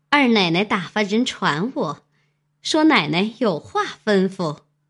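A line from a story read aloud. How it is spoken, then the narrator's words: Smiling reply. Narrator (Chinese): 林之孝家的也笑回道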